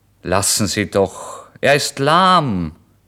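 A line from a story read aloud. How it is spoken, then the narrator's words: Called out. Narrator (German): rief der Wirt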